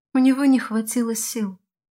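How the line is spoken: Calm and sad. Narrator (Russian): спокойно и грустно проговорила Келена

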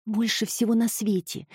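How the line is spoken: Whispered. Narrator (Russian): прошептала Эми

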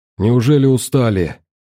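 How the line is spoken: Hoarse, breathless girl. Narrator (Russian): хрипло спросила девушка, тяжело переводя дыхание

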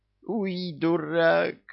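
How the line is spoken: Groaning. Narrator (Russian): простонал бывший бес

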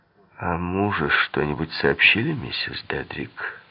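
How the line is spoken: Plain. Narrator (Russian): спросил он

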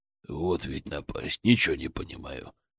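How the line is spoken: Muttering. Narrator (Russian): бормотал он

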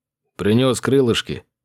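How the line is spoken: Cheerful friend. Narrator (Russian): бодро заявил друг

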